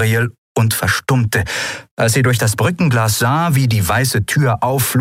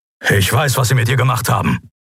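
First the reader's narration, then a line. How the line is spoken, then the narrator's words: Grumbling. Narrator (German): brummte Kero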